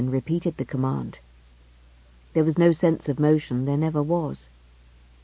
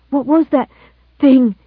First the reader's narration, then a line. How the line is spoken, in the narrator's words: He gasped